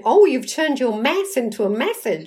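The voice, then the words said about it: Attempted American accent. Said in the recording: “in an American accent, which I'll attempt to do, apologies to anybody American listening”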